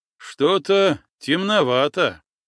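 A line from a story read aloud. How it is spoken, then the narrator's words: Snorting. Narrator (Russian): хмыкнул Михей Кослуп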